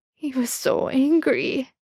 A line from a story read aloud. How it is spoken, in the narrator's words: Sam sobbed